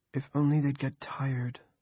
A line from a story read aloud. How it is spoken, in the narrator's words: Julia said dreamily